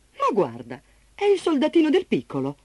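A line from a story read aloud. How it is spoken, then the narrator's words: Woman exclaiming. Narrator (Italian): Una voce di donna esclamò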